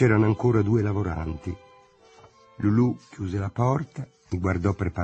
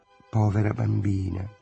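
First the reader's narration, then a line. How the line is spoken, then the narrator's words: Dreamy murmur. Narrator (Italian): mormorò Lulu, sempre con l'aria di sognare essendo sveglia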